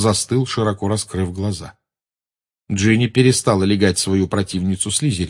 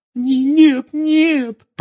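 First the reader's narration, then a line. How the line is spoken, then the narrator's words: Sobbing. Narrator (Russian): прорыдала Гермиона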